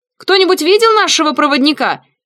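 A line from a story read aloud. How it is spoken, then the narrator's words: Shouting. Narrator (Russian): крикнула Рос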